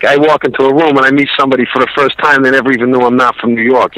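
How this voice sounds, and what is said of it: Strong New York accent. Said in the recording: “American accent? Because obviously in God the Father as well, you're doing the New York, the strong... ... Wow, you fooled us too.”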